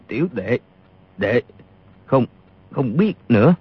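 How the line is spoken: Trembling. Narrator (Vietnamese): Y run rẩy nói

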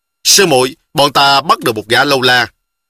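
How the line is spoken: Loud voice. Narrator (Vietnamese): Tôn Chính Lệ y bèn lớn tiếng nói

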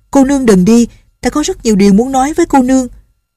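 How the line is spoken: Urgent call. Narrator (Vietnamese): Chàng vội la lên

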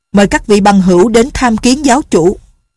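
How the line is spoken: Loud voice. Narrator (Vietnamese): Bảo đại sở lớn tiếng nói

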